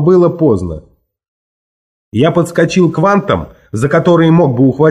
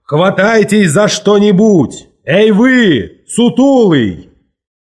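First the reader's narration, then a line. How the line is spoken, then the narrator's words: Distant shout. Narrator (Russian): Тогда Волк Ларсон закричал с кормы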